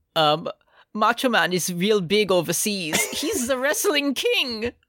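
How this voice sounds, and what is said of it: Put-on European accent. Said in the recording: “European accent guy”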